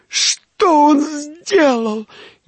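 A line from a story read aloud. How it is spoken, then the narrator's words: Sobbing, hysterical shouting. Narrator (Russian): не унималась та, мешая рыдания с истеричными криками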